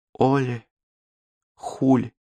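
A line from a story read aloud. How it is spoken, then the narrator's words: Barely audible, weak. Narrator (Russian): едва слышно повторила она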